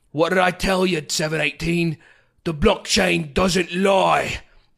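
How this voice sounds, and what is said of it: Put-on British accent. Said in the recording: “he speaks in a British accent, of course”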